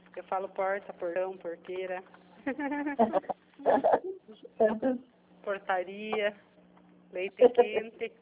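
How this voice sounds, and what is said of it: Inland São Paulo rural accent. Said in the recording (Portuguese): “Eu falo do interior... É bonito esse sotaque.”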